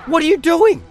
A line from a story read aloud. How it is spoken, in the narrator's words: Adler screams